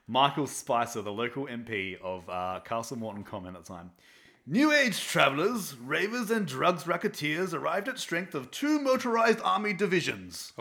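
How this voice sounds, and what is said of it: Poor put-on British accent. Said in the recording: “I'm going to do a really shitty British accent to it too.”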